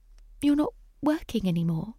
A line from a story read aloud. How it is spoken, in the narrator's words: asked him timidly